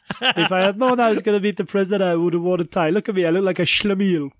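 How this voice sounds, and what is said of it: Put-on Jewish accent. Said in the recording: “one of your famous impressions ... that's supposed to be a Jewish accent ... I wouldn't have guessed he was Jewish from the accent”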